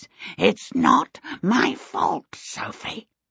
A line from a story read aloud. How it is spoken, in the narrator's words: it kept saying in an agitated, crackling voice